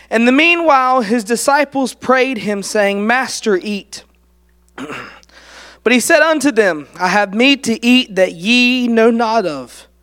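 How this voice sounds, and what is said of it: Worn-out, strained voice. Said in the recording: “you'll probably barely be able to hear me at the end of this ... My voice is worn out from praying with others at camp and also from screaming on the volleyball court, laughing our heads off the whole weekend”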